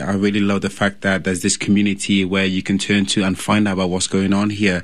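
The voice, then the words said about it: Slight British accent. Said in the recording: “I sound a bit funny. ... I'm from the UK ... do you have an accent ... Just a tiny bit”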